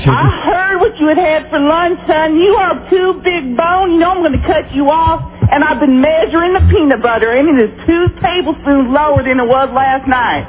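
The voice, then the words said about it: Put-on Southern accent. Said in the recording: “the southern accent? ... What a masterful impression that was. ... That was really incredible. ... Uncanny, ... Absolutely phenomenal.”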